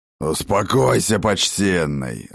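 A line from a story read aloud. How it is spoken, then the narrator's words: Growling. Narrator (Russian): рыкнул Ракот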